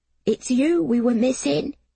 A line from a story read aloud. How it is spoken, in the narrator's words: he gasped